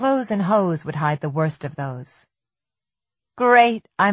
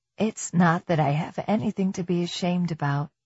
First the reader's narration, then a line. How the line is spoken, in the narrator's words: whispered